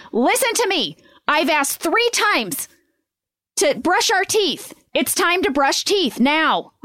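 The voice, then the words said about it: Stern commanding mom voice. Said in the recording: “that's the voice when I have to lay down the law with the kids ... mom voice. That's my mom voice ... That's your mom get in line voice.”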